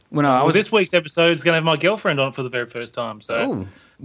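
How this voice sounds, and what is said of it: Australian accent. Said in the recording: “the sultry sounds of ... voice and his kick ass accent ... There's nothing sultry about an Australian accent.”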